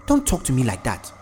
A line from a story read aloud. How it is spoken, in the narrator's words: Comfort snapped